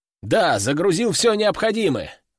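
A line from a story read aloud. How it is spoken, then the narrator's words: Exclamation. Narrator (Russian): воскликнул я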